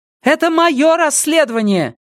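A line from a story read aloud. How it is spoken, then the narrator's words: Shout. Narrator (Russian): крикнула Сага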